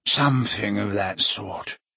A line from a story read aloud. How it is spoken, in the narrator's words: he mumbled